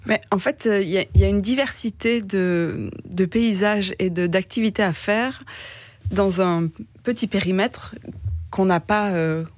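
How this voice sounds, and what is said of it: Light southern French accent. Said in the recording (French): “on entend quand même un léger accent qui n'est pas tout à fait belge chez vous ... dans votre accent, on entend du soleil, on entend peut-être même une mer qui est assez chaude”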